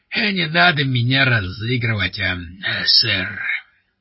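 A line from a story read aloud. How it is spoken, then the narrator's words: Hoarse wheeze. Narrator (Russian): прохрипел он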